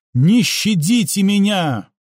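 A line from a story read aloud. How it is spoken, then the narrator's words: Shouted out. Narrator (Russian): выкрикнула Флора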